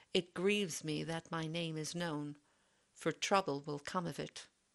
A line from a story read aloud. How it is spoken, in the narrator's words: sighed Sir Lancelot